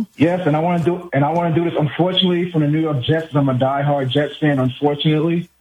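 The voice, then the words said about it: New York accent. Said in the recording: “the way you said "unfortunately" means you're from my neck of the woods... Are you a Queens guy... I can hear it from your accent”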